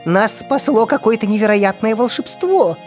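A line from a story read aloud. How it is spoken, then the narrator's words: Joyful laughter. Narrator (Russian): радостно засмеялся Шуршик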